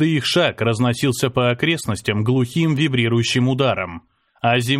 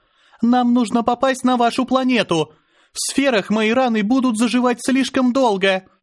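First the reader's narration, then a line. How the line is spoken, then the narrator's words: Shouted. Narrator (Russian): выкрикнула Азара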